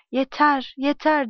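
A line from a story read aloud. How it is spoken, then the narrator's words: Loud. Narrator (Turkish): Yüksek sesle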